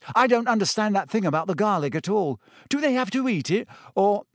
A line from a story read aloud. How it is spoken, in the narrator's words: He broke off with a small gasp